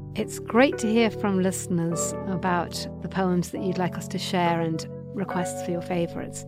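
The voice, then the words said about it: English accent. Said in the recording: “my English accent was vaguely inappropriate for reading Emily Dickinson”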